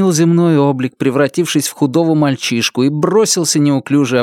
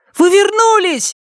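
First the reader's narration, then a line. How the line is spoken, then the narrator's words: Smallest one shouting. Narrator (Russian): самый маленький из них закричал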